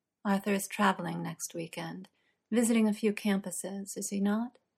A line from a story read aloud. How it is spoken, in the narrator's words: Uther asks very softly